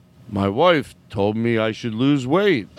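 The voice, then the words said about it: Imitates another person's voice. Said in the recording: “let me do an impersonation of you a little”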